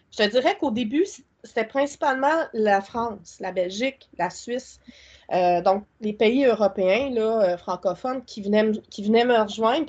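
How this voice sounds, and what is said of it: Québécois French accent. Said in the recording (French): “c'est rafraîchissant, on aime ça ton accent... Ils aiment bien mon accent”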